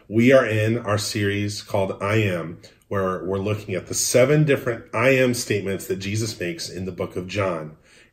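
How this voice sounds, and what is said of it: Slightly odd, allergy-affected voice. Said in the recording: “if my voice sounds a little bit odd... I am allergic to planet Earth”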